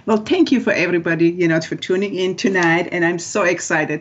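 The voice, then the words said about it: Excited voice. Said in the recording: “You can already actually hear in my voice. I'm too excited”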